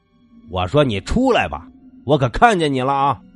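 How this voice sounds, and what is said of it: Shouting loudly. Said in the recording (Chinese): “亮子又喊”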